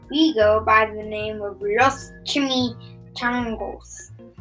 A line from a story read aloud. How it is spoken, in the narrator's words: growled Don Diego, the biggest of the small ones